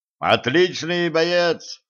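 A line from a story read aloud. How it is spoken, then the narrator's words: Shouting. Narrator (Russian): крикнул Кощей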